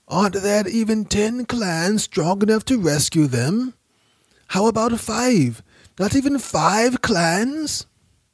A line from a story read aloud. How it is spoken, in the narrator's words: An old man began to shout